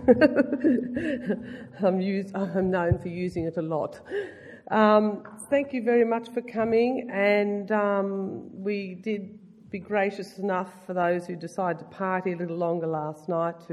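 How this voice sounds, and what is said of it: Hoarse, nearly lost voice. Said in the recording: “I've nearly lost my voice”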